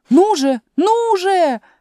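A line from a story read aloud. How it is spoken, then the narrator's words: Queen shouting. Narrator (Russian): крикнула королева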